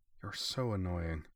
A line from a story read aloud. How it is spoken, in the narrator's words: the battleship muttered, but there was no heat in her voice